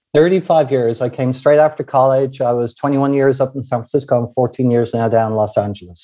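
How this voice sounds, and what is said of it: Irish accent. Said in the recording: “you've done a creditable job at keeping about 70% of the Irish accent”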